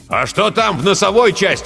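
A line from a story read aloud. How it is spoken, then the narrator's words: Shout. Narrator (Russian): крикнул Жирилло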